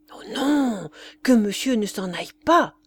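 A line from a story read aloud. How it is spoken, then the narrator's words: Servant crying out. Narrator (French): s'écria le valet de chambre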